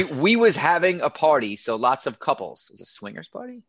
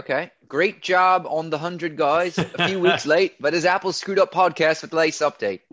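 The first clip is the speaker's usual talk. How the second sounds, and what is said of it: Put-on accent. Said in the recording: “I'm gonna stop my accent.”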